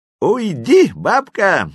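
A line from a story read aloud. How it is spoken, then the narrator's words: Laughing. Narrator (Russian): смеялся Веня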